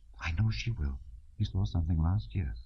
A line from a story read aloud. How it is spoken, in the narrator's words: Natasha's whisper